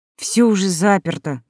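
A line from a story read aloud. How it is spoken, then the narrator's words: Sigh. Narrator (Russian): вздохнула Лолита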